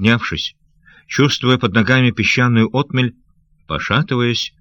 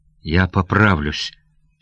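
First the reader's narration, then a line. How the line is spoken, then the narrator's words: Muttered through clenched teeth. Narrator (Russian): стиснув зубы, пробормотал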